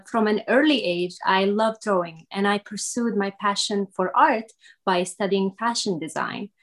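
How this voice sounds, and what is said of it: Syrian accent in English. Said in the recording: “you may have noticed that uh, from my accent that I was not born in the United States. I am originally from Syria”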